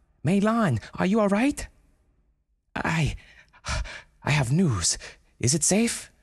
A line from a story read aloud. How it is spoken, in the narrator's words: Brenda cried